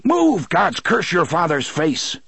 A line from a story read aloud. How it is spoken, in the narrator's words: Roland roared